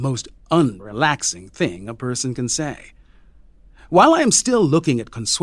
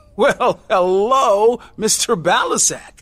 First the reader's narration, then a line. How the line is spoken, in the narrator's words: I exclaim